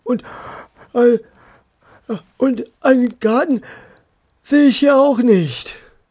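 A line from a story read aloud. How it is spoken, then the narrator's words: Tired voice. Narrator (German): sagte eine müde Stimme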